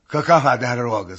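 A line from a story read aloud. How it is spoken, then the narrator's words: Laughing. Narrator (Russian): сказал он опять и засмеялся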